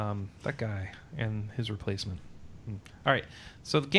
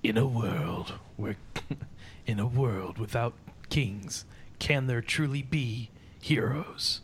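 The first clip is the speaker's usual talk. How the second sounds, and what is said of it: Movie trailer narrator voice. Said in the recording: “that movie trailer voice ... I'm not good at the movie trailer voice. I can't really do it.”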